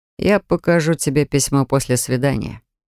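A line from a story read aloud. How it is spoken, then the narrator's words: Completely calm. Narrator (Russian): совершенно спокойно произнес Ричард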